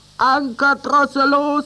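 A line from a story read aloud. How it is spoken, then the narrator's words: Shouted. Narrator (German): schrie Lump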